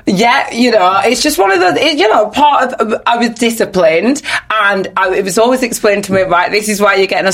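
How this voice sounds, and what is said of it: Nigerian accent. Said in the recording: “people probably heard from your accent you were Nigerian anyway.”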